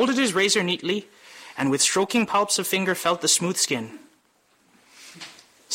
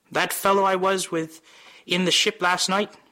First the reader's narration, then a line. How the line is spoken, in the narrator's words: said Buck Mulligan